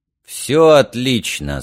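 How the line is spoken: Steadier stronger voice. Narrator (Russian): сказал он окрепшим голосом

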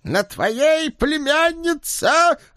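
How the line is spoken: Bold shout. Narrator (Russian): храбро выкрикнул бывший бог

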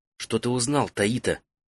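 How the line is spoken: Quiet question. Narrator (Russian): негромко спросила Фен

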